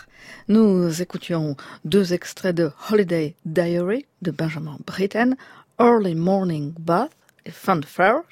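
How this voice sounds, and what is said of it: Fake English accent. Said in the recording (French): “mon faux accent anglais”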